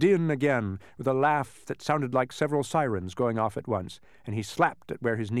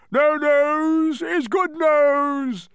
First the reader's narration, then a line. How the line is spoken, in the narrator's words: thundered the Din once again as he collapsed in another fit of hysterics